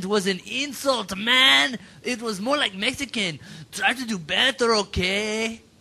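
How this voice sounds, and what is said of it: Put-on Brazilian accent. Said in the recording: “I'll read it in my Brazilian accent, which is really good”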